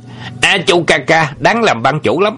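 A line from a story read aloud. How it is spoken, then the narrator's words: Loud shout. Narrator (Vietnamese): cái bang ở Hồ Bắc có người quát lớn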